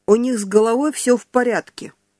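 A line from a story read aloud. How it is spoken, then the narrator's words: Cold speech. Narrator (Russian): холодно сказала Нана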